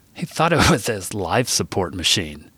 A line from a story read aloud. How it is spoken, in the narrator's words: Beau laughed